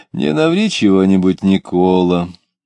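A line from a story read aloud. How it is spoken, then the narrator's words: Chuckling gentle warning. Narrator (Russian): Доктор Любомудров посмеивался ласково предупреждал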